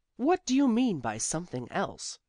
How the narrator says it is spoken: said Judith sharply

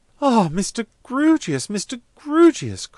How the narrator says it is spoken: cried Miss Twinkleton

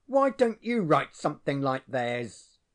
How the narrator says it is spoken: he growled

